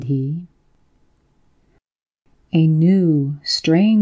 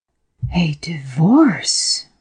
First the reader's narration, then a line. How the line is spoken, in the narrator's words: she gasped